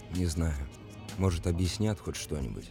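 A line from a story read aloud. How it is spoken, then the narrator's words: Muttered. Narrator (Russian): пробормотал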